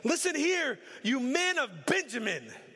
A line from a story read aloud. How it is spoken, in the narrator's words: shouted to his officers when he heard the news